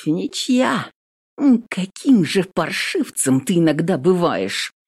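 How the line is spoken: Quiet, through clenched teeth. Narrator (Russian): Тихо цедит сквозь зубы Рязанцева

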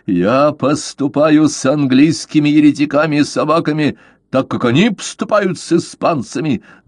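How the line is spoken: Yelling. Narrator (Russian): заорал

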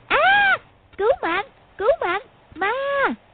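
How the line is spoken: Panicked squealing shriek. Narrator (Vietnamese): Húc Cô luống cuống chân tay, kêu rú lên như con lợn bị chọc tiết

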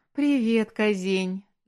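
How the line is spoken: Laughing. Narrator (Russian): засмеялась Аня

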